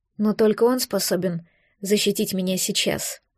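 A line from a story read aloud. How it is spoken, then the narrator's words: Calm retort despite pain. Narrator (Russian): спокойно парировала я, хотя в груди будто кинжал ворочили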